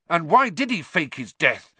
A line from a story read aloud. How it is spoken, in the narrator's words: He said furiously